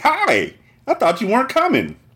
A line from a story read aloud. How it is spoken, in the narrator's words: Tracy said happily